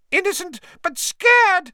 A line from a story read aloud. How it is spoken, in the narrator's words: squealed Pettigrew